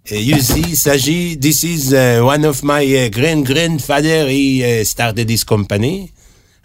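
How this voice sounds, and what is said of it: English with a sexy French accent. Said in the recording (Hebrew): “אנגלית עם מבטא צרפתי סקסי כזה”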